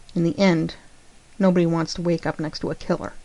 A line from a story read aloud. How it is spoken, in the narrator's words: John snarled